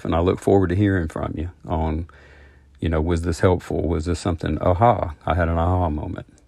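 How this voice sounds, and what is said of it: Southern American English accent. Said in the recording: “I hope you understand my Southern English on this podcast ... everybody loves my accent ... I'm trying to hide it as much as I possibly can”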